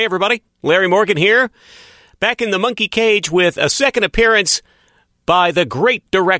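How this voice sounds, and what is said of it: Usual voice. Nothing is said of it.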